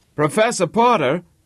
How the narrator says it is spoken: cried Harvey

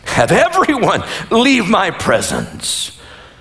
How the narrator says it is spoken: Joseph could no longer control himself before all his attendants, and he cried out

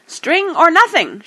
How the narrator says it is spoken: shrieked Gollum

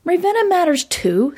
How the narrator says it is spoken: snapped Mel

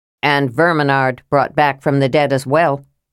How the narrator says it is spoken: said Tanis dryly

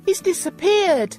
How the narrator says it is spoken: I cried

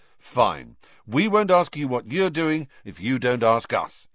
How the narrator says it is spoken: he said

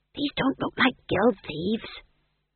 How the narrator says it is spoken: he hissed

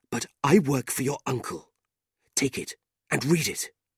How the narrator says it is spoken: the man whispered nervously

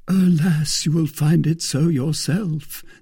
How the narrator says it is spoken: said Aramis with a sigh

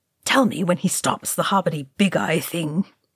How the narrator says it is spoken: he muttered

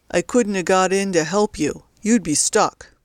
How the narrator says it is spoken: said CJ sullenly

